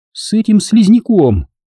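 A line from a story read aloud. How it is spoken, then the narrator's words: Exclaiming. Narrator (Russian): воскликнула она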